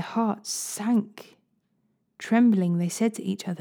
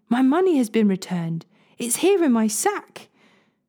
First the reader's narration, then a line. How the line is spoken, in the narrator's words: exclaimed